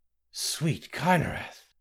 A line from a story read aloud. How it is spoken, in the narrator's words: Gaina gasped